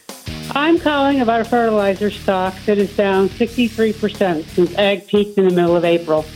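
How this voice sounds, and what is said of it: Regional American accent. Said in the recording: “Love your accent. Nice. I feel at home.”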